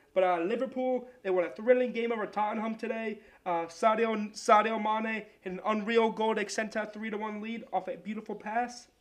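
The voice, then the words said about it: Attempted Australian accent. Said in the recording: “I don't even know that accent. I'm trying to go Australian now.”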